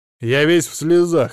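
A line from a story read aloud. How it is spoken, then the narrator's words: Clipped, measured. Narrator (Russian): отчеканил он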